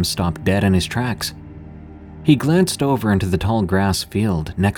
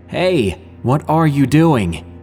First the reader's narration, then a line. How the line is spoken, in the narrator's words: E had yelled